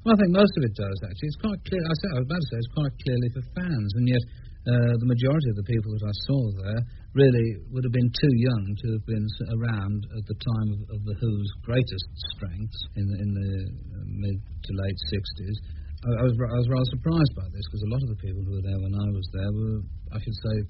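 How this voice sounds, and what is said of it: Posh middle-class English accent. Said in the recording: “subconsciously adopt an entirely different accent thing. A terribly middle class, I'm rather stupid.”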